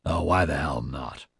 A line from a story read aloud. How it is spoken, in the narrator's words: Nigel grunted with ill grace